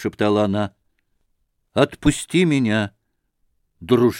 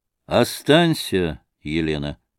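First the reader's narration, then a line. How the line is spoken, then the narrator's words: Calm. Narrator (Russian): сказал спокойно Морозов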